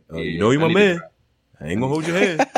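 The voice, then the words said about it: Impression of P. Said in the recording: “that P impression”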